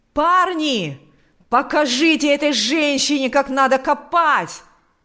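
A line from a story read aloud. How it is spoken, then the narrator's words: Shouting. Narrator (Russian): кричал он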